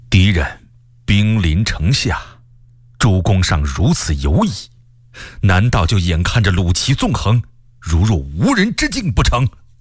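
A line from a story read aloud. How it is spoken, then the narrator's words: Angry, stern. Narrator (Chinese): 卢象升大为生气，厉声说道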